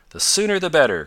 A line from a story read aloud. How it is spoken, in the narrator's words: cried Tom